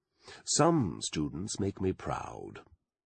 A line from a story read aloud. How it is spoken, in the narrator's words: would say in his BBC tones